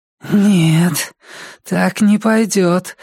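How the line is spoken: Hoarse. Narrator (Russian): хрипло проговорила Джесси

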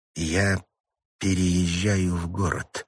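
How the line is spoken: Slow. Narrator (Russian): медленно произнесла Сьюзен

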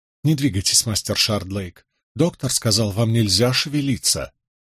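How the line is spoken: Soft female voice. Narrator (Russian): Знакомый женский голос мягко произнес

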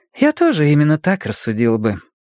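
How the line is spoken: Deceptively casual question. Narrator (Russian): спросила обманчиво небрежным тоном, ни к кому конкретно не обращаясь

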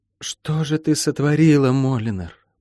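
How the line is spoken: Muttering. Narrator (Russian): пробормотала она

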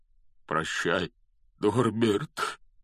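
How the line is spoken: Breaking voice, forced out. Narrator (Russian): срывающимся голосом выдавил из себя Хагрид

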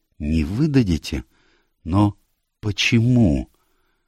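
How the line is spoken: Very quiet, fearful question. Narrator (Russian): спросила так тихо, точно боялась произнести эти слова

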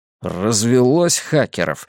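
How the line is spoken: Grunted. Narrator (Russian): буркнул я

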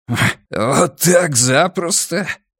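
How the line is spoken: Laughing. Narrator (Russian): Арни рассмеялся

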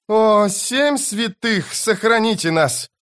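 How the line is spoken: Merchant hissing. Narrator (Russian): прошипел торговец

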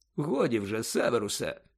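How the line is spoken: Calm. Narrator (Ukrainian): спокійно мовив Дамблдор

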